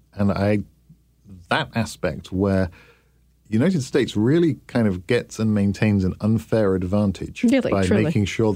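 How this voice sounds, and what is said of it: Non-American foreign accent. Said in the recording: “You have a funny accent, ... You talk funny.”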